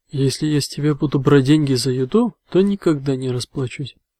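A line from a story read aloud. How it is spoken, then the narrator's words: Laughing. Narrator (Russian): рассмеялся маг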